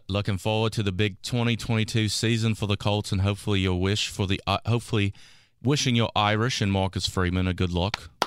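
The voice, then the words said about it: Put-on Australian accent. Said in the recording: “Continue it from down under right there ... I'm clapping your accent. You sound like Cameron Smith, the golfer ... I want to hear more of the accent.”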